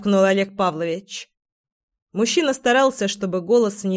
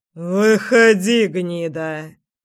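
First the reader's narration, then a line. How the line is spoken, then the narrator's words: Through gritted teeth. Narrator (Russian): процедил знакомый голос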